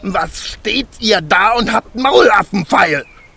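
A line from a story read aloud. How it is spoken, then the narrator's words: Furious shouting dwarf. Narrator (German): schrie der Zwerg, und sein aschgraues Gesicht war zinnoberrot vor Zorn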